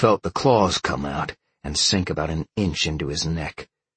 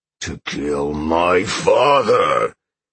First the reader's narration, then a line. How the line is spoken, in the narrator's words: Sean roared